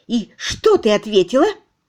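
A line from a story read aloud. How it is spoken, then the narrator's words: Angry blurting. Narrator (Russian): сердито выпалила Кэтрин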